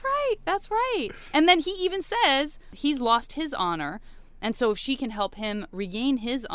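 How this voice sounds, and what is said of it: Usual voice. Nothing is said of it.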